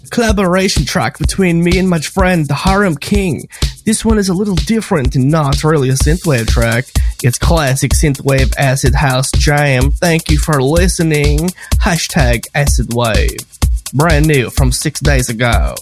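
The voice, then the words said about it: Put-on German accent. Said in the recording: “I'm going to read this kind of German ... accent's perfect”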